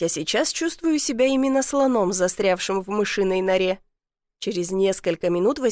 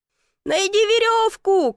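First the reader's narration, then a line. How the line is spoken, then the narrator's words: Shout. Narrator (Russian): крикнул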